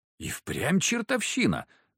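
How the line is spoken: Muttering. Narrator (Russian): пробормотал Захар

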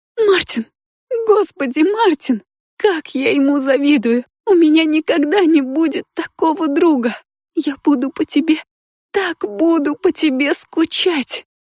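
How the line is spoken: Sobbing. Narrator (Russian): всхлипывала она

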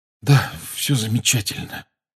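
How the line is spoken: Hoarse pained mutter. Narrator (Russian): хрипло пробормотал Гарри и сглотнул, превозмогая боль

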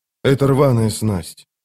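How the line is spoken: Lifeless voice. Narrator (Russian): безжизненным голосом проговорил он

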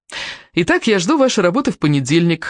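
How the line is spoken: Joyful announcement. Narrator (Russian): радостно объявил

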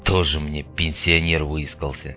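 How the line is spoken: Quiet retort. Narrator (Russian): Тихо отыгрался за все подначки Айболит

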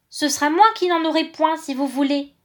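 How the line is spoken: Man exclaiming. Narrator (French): s'écria-t-il

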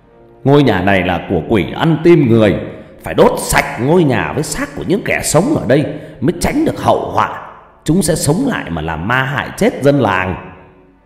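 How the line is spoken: Loud shout. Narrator (Vietnamese): Gã thầy mo đứng trước mặt của dân bản, giơ hai tay lên trời hét lớn

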